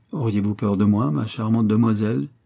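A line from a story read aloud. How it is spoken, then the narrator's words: Coaxing tone. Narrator (French): dit le major d'un ton caressant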